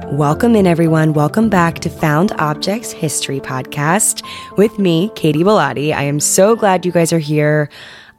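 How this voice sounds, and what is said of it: Raspy, congested voice. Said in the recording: “I sound kind of raspy slash just congested right now, which is true. I am congested. I am ridden with allergies”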